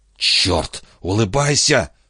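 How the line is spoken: Hiss. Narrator (Russian): прошипел Хилли

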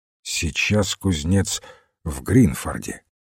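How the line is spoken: Quiet. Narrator (Russian): тихо сказал Уилфрид

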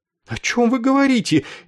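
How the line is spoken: Frightened chaplain asking. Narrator (Russian): испуганно спросил капеллан

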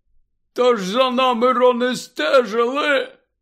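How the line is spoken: Hoarse explanation. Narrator (Ukrainian): хрипко пояснив

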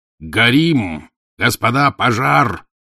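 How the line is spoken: Shouted. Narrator (Russian): закричал Лев Сократович

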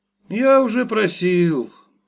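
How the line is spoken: Glum. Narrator (Russian): сказал журналист уныло

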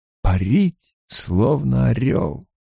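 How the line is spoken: Mumbling. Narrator (Russian): Бормоча, Перин

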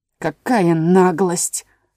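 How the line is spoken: Low rich voice. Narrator (Russian): сказал пирог низким сочным голосом

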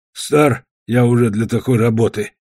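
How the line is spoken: Grumbling. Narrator (Russian): пробурчал Свечка

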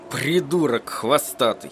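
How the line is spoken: Through clenched teeth. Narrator (Russian): процедил Эдди сквозь стиснутые зубы

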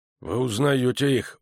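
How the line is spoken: Gruff muttered reply. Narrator (Russian): буркнул в ответ командир разведки

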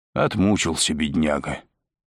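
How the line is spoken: Hoarse. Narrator (Russian): сказал Стась хрипло

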